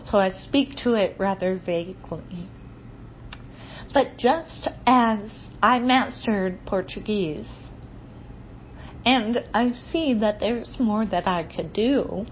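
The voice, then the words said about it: Strong non-native English accent. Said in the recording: “I still have a garbage accent... I still have a strong accent.”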